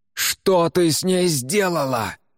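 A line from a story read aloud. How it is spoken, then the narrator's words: Yelling, shaking someone. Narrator (Russian): заорал Уга, тряся ее за плечи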